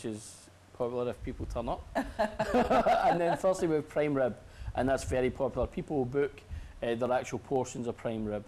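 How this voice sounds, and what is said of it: Strong Scottish Glasgow accent. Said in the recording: “I'm sensing an accent. ... I'm from Scotland ... I'm from Glasgow ... I've still got a very strong accent”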